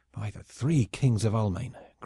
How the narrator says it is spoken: growled Crockart

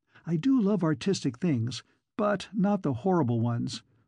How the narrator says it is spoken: moaned Fern Mullins

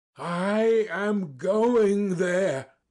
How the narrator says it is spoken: I cried

